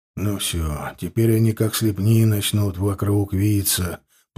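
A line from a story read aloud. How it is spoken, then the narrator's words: Mutter. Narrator (Russian): пробормотал Илья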